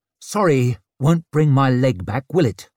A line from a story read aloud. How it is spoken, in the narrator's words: he snapped